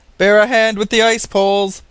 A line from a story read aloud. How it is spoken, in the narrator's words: the captain shouted to the men